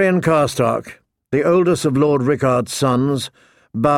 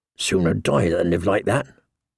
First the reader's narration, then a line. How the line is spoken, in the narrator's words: muttered one, his father's namesake, Eddard